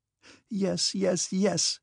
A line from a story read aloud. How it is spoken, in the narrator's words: cried Natasha joyfully